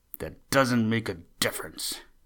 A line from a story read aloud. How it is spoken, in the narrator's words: snapped Buster